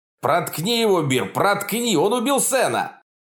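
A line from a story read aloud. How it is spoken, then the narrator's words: Shouting. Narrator (Russian): Тот закричал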